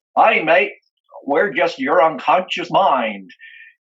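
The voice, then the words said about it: Heavy Australian accent. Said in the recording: “in this heavy Australian accent,”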